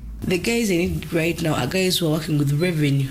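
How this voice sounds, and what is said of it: Ugandan English accent. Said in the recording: “You can tell from the accent it's a Ugandan babe.”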